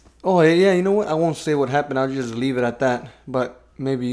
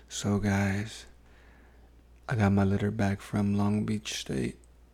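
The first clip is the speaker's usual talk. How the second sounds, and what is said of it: Put-on sexy voice. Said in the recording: “going to do it in my sexy voice”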